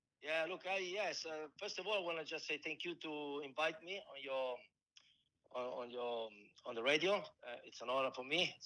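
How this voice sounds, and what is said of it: Strong Italian accent. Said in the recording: “my strong Italian accent”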